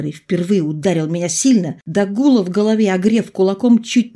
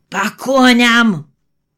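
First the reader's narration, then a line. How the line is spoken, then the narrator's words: Shouted from afar. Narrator (Russian): закричал волк еще на подходе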